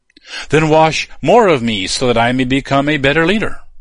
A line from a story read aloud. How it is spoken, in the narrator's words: he pleaded